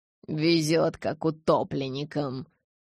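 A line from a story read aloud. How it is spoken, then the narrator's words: Muttered. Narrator (Russian): пробурчал Стефан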